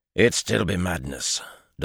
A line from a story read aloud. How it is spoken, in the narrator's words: Doman grumbled